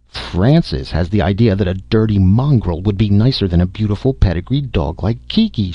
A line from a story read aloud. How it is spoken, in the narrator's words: cried disgustedly